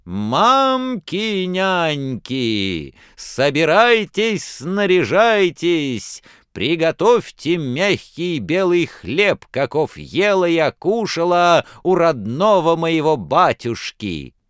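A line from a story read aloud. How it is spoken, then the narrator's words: Loud shout. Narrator (Russian): закричала громким голосом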